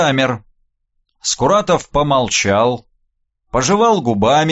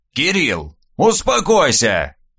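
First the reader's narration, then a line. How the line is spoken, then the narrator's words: Old man's sudden bark. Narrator (Russian): вдруг рявкнул дед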